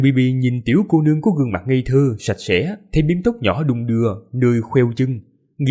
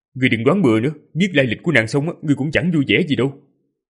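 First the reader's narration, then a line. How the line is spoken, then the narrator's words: Irritable snap. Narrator (Vietnamese): Ninh Khuyết bèn gắt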